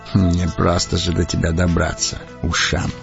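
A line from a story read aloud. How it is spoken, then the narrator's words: Mumbling. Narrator (Russian): пробормотал мой хозяин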